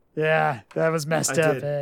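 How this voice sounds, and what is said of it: Sleepy Stu Hart impression. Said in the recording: “I sound like Norm MacDonald imitating me ... you kind of sound like a sleepy KBW ... It's so spot on. It's like I'm talking to Stu.”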